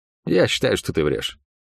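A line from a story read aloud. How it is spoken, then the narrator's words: Flat, colorless voice. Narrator (Russian): бесцветным голосом произнес он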